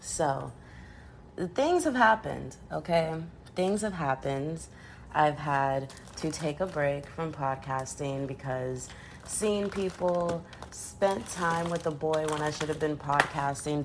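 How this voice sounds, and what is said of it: Scratchy throat. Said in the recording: “I don't know if you can still tell it in my voice, but I still have a scratchy throat.”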